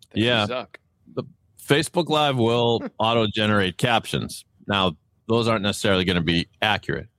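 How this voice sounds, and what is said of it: Boston accent. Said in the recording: “my Boston accent”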